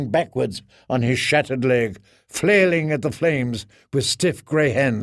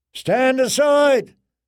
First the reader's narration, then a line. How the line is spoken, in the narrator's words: someone shouted, far away